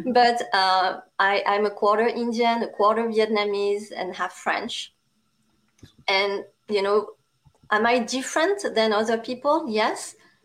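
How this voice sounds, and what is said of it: Strong French accent. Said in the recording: “a Asian with a strong French accent, obviously”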